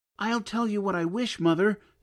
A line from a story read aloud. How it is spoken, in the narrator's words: cried he